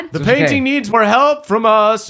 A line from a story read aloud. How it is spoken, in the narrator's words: Uncle Andrew shouts